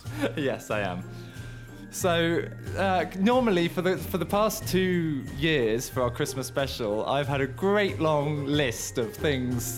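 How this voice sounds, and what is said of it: Hoarse voice with a cold. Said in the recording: “I have a cold and a sore throat at the moment”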